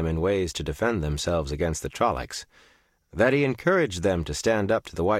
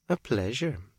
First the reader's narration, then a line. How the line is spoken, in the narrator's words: murmured